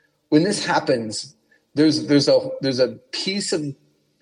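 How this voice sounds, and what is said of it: Usual voice. Nothing is said of it.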